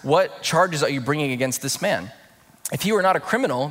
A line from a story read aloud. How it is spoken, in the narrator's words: they replied